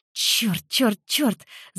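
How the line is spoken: Hissing. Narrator (Russian): зашипела я

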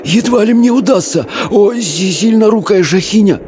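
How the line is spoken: Wheezing. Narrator (Russian): просипел Абдулла

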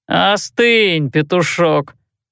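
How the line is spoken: Drawling. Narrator (Russian): протянул де Брюссо

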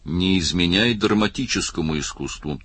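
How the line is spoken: Dry remark. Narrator (Russian): сухо заметил Барни

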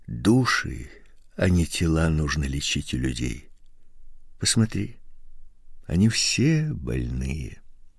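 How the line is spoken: Quiet. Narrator (Russian): И потом тихо добавил

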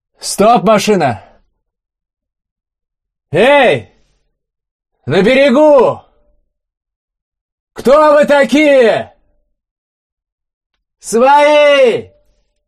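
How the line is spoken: Shouted in Russian. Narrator (Russian): По-русски прокричал один из воинов

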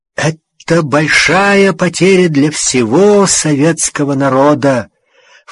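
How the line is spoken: False-sounding voice, senior adviser. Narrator (Russian): фальшивым голосом сказал, спасая положение, старший советник

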